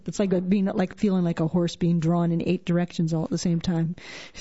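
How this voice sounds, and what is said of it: Canadian accent. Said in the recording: “I love your Canadian accent.”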